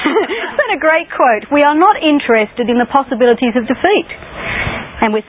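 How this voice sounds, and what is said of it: Usual voice. Nothing is said of it.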